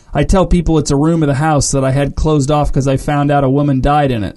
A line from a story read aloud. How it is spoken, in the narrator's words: said the homeowner